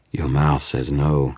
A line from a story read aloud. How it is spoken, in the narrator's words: she purred